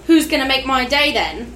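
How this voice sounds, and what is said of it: Put-on accent. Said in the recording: “Nice accent ... I've been practicing it.”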